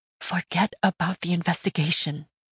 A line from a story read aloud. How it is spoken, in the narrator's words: fear whispered in my mind